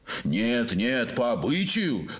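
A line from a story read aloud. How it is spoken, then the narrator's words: Crowd shouting. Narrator (Russian): закричали гости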